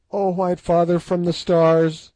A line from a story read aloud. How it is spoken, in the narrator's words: she cried